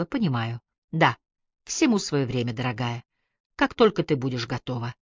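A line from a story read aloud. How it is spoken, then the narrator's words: Affectionate, gentle. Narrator (Russian): вслух ласково сказала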